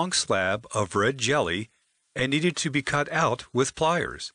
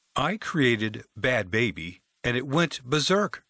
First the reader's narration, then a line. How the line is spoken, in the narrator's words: Greg said